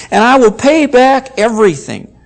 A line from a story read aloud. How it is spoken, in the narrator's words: begged